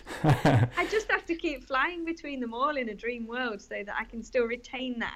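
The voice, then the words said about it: Mixed Yorkshire and Australian accent. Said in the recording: “there's a little bit of Yorkshire coming through there, but I can hear a bit of Sydney as well. So you've got that sort of lovely mix.”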